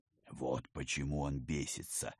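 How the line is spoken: Whispered in ear. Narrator (Russian): шепнул на ухо парню Пал Палыч

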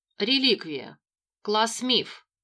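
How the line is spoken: Even, hiding astonishment. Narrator (Russian): озвучила художница ровным голосом, будто и не обалдела от увиденного

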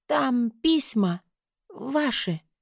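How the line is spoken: Hoarse, strained speech. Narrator (Russian): хрипло проговорила, с трудом

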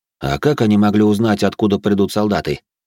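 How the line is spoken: Snort. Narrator (Russian): хмыкнул

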